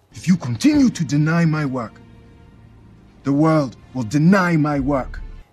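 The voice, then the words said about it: Generalized Nigerian accent. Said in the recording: “Nigerian accent... somewhat Americanized Nigerian accent... Kind of generalized Nigerian or African accent... Listen to those TH sounds in this... They should be dentalized”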